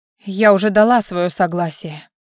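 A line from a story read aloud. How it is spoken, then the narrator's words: Quiet young woman's reply. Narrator (Russian): тихо откликнулась девушка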